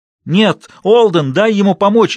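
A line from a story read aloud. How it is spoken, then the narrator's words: Shouted. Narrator (Russian): закричала Линда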